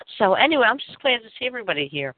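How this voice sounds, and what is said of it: Congested voice from a cold. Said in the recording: “I have a cold, by the way. So if I have to mute myself every now and then to cough ... But I have a cold, which is starting to go away, but I still have it.”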